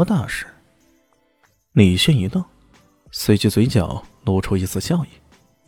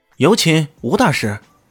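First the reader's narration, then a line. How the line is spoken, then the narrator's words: Loud announcement. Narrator (Chinese): 那保镖……高喊道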